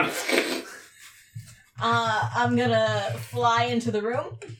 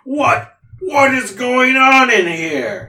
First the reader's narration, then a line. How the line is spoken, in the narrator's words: the voice of something loud and booming going